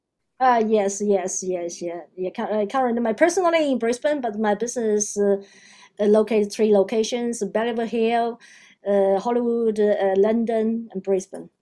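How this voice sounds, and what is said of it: Chinese-accented English. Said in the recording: “you have an accent, so you're originally from China”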